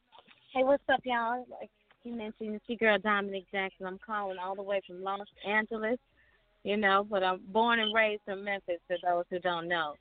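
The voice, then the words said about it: Slight Southern accent. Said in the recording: “I can hear that little southern accent in there ... the southern accent”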